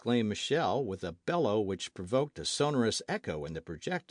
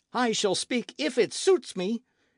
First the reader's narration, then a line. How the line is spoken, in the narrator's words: exclaimed Michel